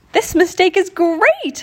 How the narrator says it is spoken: Leah exclaimed

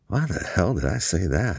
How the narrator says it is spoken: He muttered to himself

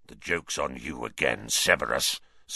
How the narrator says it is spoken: snarled Black

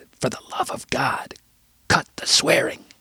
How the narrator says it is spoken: stage whispered

